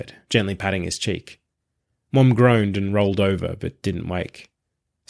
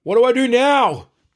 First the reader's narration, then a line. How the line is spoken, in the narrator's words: Pete yelled from the back of the store